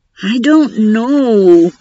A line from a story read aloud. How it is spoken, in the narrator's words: Tadaki whined